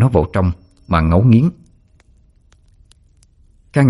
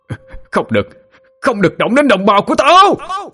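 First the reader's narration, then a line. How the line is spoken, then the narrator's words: Roaring shout. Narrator (Vietnamese): Tiếng hét to tới mức cứ như một con trọng đang gầm vang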